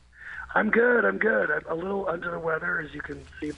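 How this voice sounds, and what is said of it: Raspy voice. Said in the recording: “my voice is a little uncharacteristically raspy ... Do sound raspy.”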